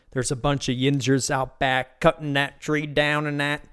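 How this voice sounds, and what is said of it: Bad put-on Pittsburgh accent. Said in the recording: “That was a horrible Pittsburgh accent.”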